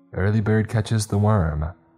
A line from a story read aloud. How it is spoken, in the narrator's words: my mom said cheerfully